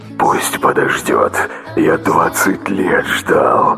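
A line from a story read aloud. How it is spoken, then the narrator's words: Fervent whisper. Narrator (Russian): горячий шепот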